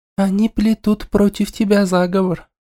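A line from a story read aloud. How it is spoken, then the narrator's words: Loud whisper. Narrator (Russian): громко шепнула ей Дею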